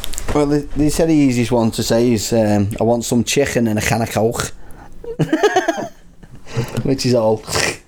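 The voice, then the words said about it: Broad Wigan northern English accent. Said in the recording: “I'm not Scouse myself. I'm from Wigan, which is another broad accent.”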